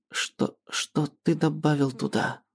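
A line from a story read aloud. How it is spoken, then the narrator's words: Stammering question. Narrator (Russian): Запинаясь, спрашивает Мариан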